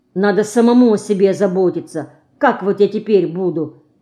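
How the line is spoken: Grumbling. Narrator (Russian): заворчала была Динка

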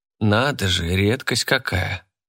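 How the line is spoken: Snorting. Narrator (Russian): Хмыкает Данам

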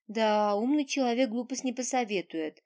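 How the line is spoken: Laughing. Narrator (Russian): хохотнула

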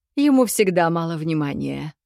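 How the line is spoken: Snorting. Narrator (Russian): хмыкнул он

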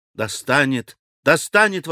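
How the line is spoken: Exclamation. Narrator (Russian): воскликнул Алеша

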